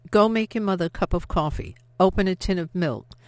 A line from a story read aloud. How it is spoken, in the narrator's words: said firmly